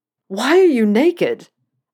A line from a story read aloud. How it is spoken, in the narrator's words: Malfoy screamed, looking around frantically